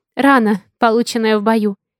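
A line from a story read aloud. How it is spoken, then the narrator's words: Pained sigh. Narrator (Russian): вздохнула, стараясь не думать о пульсирующей боли в центре лба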